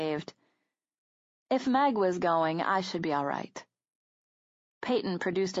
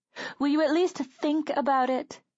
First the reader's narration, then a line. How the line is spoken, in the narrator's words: she begged